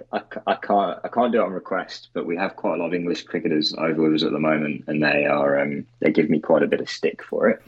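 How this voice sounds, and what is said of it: English speaker with acquired Australian accent. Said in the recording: “my horrible accent that I've apparently picked up over the last 7 years in Australia”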